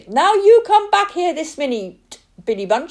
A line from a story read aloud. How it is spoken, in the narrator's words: she shouted